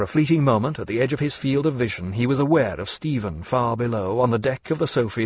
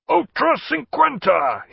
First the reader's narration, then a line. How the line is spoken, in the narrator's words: he shouted for good measure